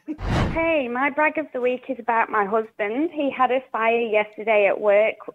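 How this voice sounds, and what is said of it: Funny accent. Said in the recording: “She had a funny accent.”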